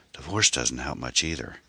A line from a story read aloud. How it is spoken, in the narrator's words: Ann muttered half aloud